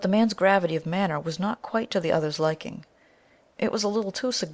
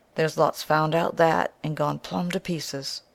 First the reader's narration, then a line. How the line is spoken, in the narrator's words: he added, in a lowered tone, as if to himself